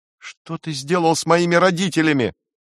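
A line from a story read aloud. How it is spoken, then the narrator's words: Angry shout. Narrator (Russian): в гневе закричала Джулия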